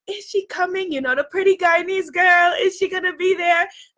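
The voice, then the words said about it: Poor imitation of Guyanese accent. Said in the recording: “That was a terrible Guyanese accent.”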